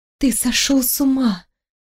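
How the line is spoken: Bewildered whisper. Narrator (Russian): прошептала я, еще не до конца понимая, что происходит

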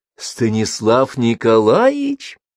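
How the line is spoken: Joyful child announcing. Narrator (Russian): радостно сообщила сиротка

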